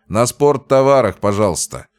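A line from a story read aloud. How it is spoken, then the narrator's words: Loud request. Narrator (Russian): громко попросил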